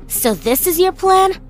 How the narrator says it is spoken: I snapped

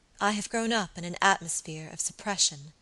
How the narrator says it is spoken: she said quietly

